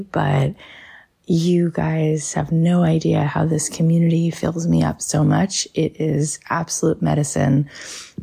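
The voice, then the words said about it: Scratchy voice with a cold. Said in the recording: “As you can hear, I have a little bit of a cold. I was home today with a fever, so my voice is a little bit scratchy”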